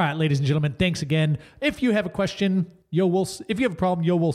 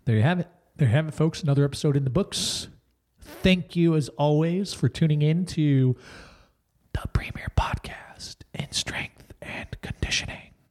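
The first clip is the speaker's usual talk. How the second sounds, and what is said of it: Whispering. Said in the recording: “I'm whispering? ... Trying to keep it a secret.”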